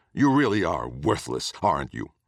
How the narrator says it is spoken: Caring not for the dire skills of the man before him, he spat

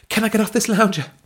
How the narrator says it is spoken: Belinda gasped

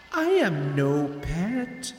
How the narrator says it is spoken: she said, her voice seductive and sweet

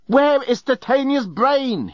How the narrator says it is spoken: he yelled

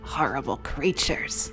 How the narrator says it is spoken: I muttered

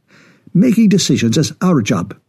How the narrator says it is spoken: snapped Singh

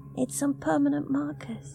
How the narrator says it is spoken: she said softly

